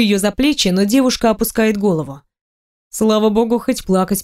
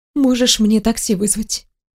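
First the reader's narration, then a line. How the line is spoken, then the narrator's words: Calm speech. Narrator (Russian): говорит спокойно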